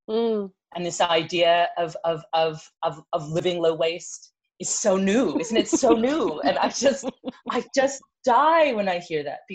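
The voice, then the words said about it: British accent. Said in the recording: “you can tell by my accent, the most British of either of the two people, of all three of this trio”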